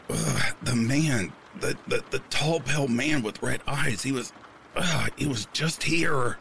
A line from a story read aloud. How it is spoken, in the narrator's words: I grunted